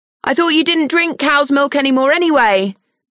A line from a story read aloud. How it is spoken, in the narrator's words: she shouts up the stairs